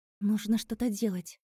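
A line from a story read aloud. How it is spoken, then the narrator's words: Whisper. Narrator (Russian): прошептала я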